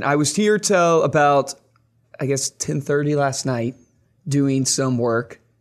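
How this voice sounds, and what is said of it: Hoarse, strained voice. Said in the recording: “I've lost my voice. Can you tell? ... I can tell your voice is a little... ... It's a little shot.”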